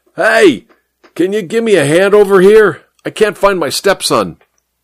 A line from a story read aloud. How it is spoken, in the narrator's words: He yelled at the traffic cop